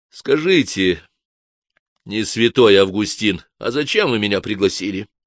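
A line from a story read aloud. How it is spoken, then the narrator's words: Plain. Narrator (Russian): спросил Гард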